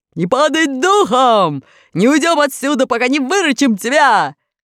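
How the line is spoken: Yelling through megaphone. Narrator (Russian): друзья очень ободрились, и железный дровосек снова заорал в свою воронку рупор

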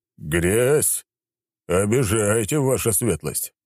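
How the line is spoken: Grumbling reply, baron. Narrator (Russian): проворчал в ответ барон

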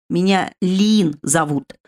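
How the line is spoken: Hissing. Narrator (Russian): зашипела хвостатая девушка

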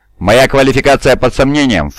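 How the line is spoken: Snorting woman. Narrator (Russian): фыркнула женщина

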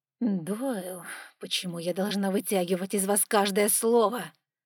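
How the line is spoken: Menacing, through gritted teeth. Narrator (Russian): Сквозь зубы спросила герцогиня таким тоном

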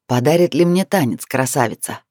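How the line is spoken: Husky, mysterious man. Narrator (Russian): Красивый мужчина в золотом кафтане загадочно улыбнулся и с хрипотцой в голосе произнес

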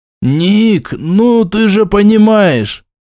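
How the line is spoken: Hesitant, forced out. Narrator (Russian): Дежур замялся и выдавил

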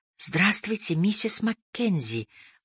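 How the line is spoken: Soft hesitant whisper. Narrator (Russian): прошептала я, желая, чтобы она проснулась, но в то же время было жаль ее будить

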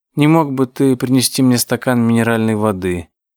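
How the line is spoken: Sleepy request. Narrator (Russian): Розмари сонно попросила

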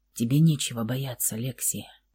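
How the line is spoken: Whispered in ear. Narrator (Russian): прошептал он ей на ухо

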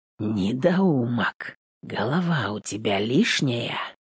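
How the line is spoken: Barely audible question. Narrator (Russian): Тихо спросил, чтобы слова угадывал

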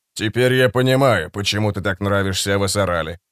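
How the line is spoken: Calm but cold. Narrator (Russian): сказал Фред спокойно, но холодно

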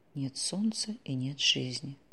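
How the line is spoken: Muttering. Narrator (Russian): пробормотала Ольга

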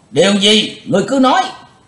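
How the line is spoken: Crowd shouting in unison. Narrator (Vietnamese): Cả tràng đồng quát

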